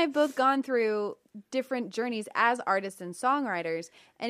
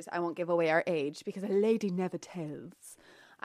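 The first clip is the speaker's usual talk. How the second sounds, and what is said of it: Put-on British accent. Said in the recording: “I don't know what this British accent is that keeps coming out”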